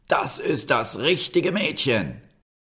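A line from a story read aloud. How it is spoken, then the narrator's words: Calling out. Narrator (German): rief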